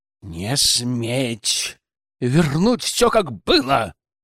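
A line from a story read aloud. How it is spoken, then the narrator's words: More menacing question. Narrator (Russian): Уже более грозным тоном спросил Павел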